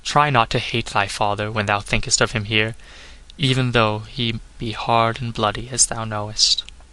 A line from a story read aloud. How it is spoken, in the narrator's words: murmured